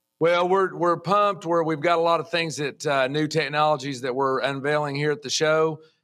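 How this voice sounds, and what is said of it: Noticeable regional American accent. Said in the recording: “I love the accent, man.”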